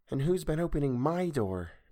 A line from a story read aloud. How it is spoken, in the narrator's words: breathed Violet